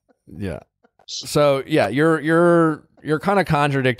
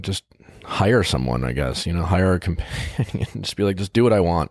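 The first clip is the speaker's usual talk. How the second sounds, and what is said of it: Sarcastic tone. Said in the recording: “I'm being sarcastic”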